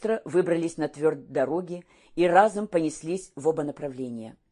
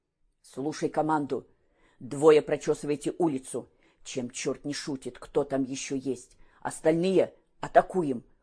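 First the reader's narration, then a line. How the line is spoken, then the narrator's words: Low-voiced command. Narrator (Russian): вполголоса распорядился Петр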